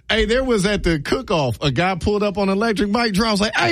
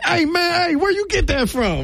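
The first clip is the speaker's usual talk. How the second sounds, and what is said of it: Puts on a stereotyped voice. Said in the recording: “gave me the black voice”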